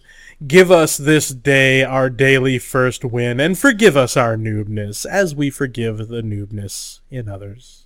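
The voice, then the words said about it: Mock preacher voice. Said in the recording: “in my preacher voice? ... preacher voice.”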